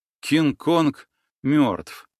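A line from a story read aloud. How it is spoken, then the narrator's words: Trembling breathless voice. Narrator (Russian): дрожащим голосом выдохнул я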